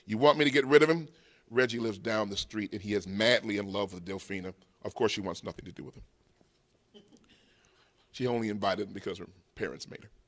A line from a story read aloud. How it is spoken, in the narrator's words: Reggie Butler, feeling brave after two quickly consumed cups of jacked punch and eager to get into Delfina's good graces, said